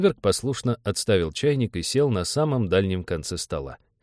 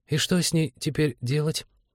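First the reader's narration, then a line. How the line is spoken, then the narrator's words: Timid question. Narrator (Russian): робко спросила зоолог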